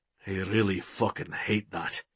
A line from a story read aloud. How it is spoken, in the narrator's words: Will muttered